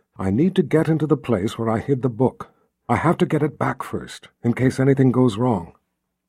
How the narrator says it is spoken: Richard said in a near whisper

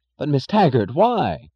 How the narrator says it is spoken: cried Chick Morrison

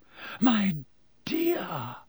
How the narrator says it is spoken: Professor Trelawney breathed

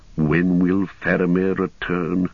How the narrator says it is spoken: the wizard sigh and mutter

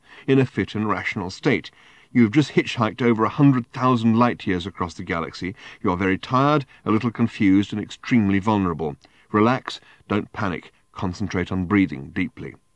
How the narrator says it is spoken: he continued to himself in the firmest internal voice he could muster

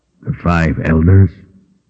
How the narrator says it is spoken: Richard sighed

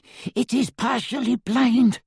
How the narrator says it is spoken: panted Griphook

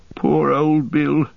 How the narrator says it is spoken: said in a choking voice

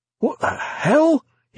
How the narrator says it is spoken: gasped

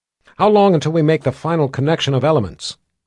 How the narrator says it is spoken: Violet asked

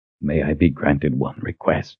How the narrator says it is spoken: Weber whispered

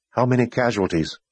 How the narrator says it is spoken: Kaelin asked

